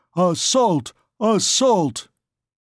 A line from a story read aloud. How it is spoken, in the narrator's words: There came a tremendous howl, in which there mingled all tongues, all dialects, all accents